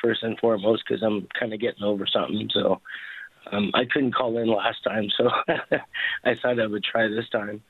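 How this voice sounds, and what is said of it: Strained, partly lost voice. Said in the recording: “I apologize for my voice ... I kind of losing my voice a little bit”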